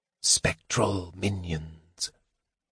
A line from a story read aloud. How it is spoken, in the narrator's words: the mage whispered